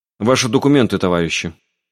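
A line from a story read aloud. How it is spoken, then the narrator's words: Dry command. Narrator (Russian): сухо распорядился начальник охраны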